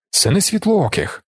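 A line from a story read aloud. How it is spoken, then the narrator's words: Doctor exclaiming. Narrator (Ukrainian): вигукнув лікар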